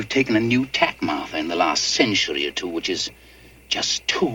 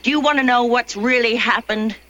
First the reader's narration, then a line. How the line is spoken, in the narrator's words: It snapped